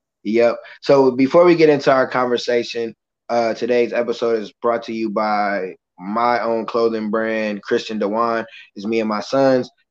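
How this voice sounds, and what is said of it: Rough, strained voice. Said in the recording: “I'm surprised I still have a voice ... my voice is a little sketchy”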